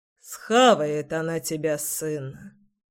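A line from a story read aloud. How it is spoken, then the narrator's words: Gloomy sigh. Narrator (Russian): Вздохнул папка, мрачно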